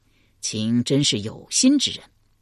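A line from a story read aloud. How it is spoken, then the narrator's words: Pleased, repeating quickly. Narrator (Chinese): 齐桓公转怒为喜，连道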